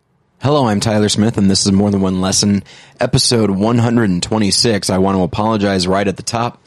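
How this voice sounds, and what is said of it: Slightly husky, hoarse voice. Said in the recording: “there's a bit of a husk to my voice ... I'm a bit under the weather ... Right now it just seems more hoarse than anything else”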